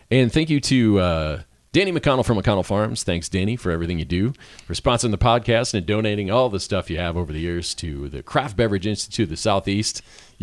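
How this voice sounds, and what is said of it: Cheesy radio announcer voice. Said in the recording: “You're just laughing at my radio. This is my cheesy radio voice.”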